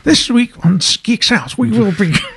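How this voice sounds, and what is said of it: Imitates another person's voice, badly. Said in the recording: “my horrible impression of David Attenborough”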